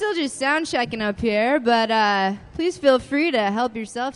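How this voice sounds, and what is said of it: Usual voice. Nothing is said of it.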